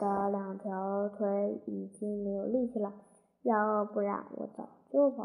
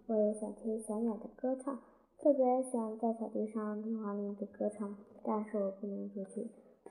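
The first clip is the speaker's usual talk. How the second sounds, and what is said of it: Quiet, soft voice. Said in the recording (Chinese): “小声”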